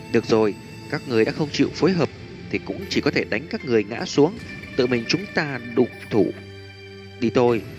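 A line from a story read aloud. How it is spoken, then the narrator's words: Soft, smiling. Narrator (Vietnamese): Thanh niên tóc dài cười tủm tỉm khẽ nói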